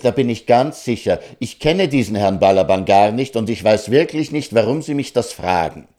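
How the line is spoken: Gentleman, angry. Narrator (German): sagte der Herr zornig

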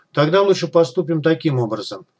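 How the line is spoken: Low, fast, clipped voice. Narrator (Russian): Шевцов понизил голос и заговорил быстро, отрывисто, четко

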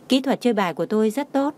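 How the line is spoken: Smiling. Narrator (Vietnamese): Đường Khả Hinh mỉm cười nói

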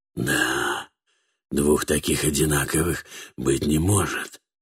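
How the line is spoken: Said, then deep sigh. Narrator (Russian): проговорил Катфаэль и глубоко вздохнул

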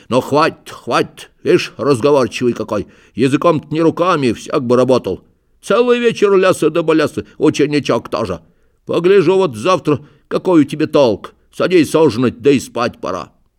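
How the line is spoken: Grumbling, seemingly angry. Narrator (Russian): будто рассердился, заворчал

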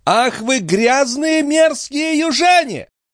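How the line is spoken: Angry shout. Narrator (Russian): закричала мамаша

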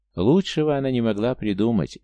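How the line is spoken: Cheerful exclamation. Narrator (Russian): весело воскликнул Эль

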